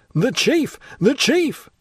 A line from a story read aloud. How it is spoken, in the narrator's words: rising with a species of despair, he exclaimed